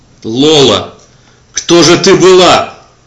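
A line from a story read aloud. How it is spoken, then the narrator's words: Shouting into darkness. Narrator (Russian): закричал я в могильную тьму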